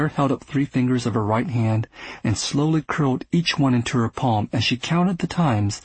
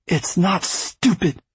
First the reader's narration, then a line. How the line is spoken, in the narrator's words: Claire hissed